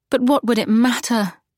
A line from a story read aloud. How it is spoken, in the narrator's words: She said with a sigh